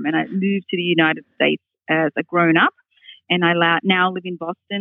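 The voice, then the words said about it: Australian accent. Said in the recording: “you're probably going to hear that I have an accent ... my accent comes from, because I grew up in Australia ... I sound like an Australian”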